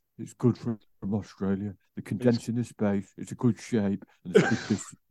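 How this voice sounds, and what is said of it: Imitates another person's voice. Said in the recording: “Danny Murphy says ... what accent is that?”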